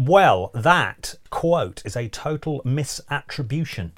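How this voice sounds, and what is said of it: Usual voice. Nothing is said of it.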